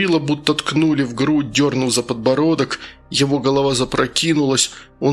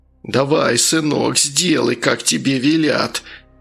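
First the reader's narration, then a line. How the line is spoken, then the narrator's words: Creaky voice nearby. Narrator (Russian): проскрипел где-то рядом голос главы администрации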